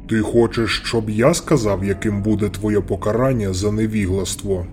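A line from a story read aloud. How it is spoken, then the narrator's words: Plain. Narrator (Ukrainian): сказав Лисандр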